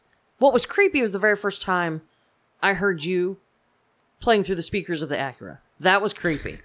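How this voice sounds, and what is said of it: Usual voice. Nothing is said of it.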